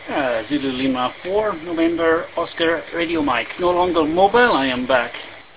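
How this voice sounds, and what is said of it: Fast speech with strong accent. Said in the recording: “that was a little fast for me. I can't get that accent squared away”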